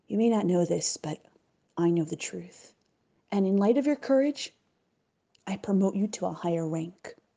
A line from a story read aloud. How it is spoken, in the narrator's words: so that no one could overhear, whispered softly